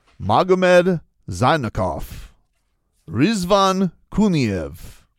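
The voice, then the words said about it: Names read in a put-on accent. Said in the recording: “say it in the accent”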